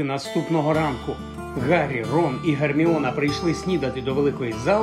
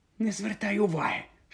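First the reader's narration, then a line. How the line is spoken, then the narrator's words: Whisper. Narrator (Ukrainian): шепнула Герміона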